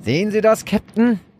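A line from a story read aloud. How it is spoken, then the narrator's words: Calling out. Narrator (German): rief der Steuermann zu Rubeus, dem Captain der Portsier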